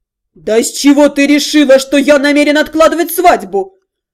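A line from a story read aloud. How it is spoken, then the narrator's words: Offended roar. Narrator (Russian): Обиженно взревел Дальшер, изрядно покоробленный таким подозрением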